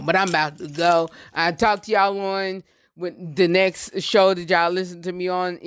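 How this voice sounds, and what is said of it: Voice cutting in and out. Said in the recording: “my voice is going in and out”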